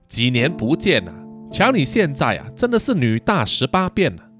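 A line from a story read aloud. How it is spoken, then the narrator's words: Smiling, amazed. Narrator (Chinese): 何中汉笑的 惊叹的说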